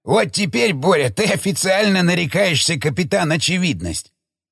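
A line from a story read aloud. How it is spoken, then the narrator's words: Laughing while coughing. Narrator (Russian): захохотал, кашляя Шестаков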